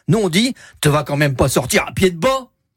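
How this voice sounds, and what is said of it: Local regional French accent. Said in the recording (French): “l'accent, par ici”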